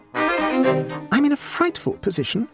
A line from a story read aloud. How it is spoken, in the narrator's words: exclaimed Mrs